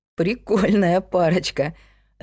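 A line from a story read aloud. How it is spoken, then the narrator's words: Laughing. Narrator (Russian): рассмеялся Сергей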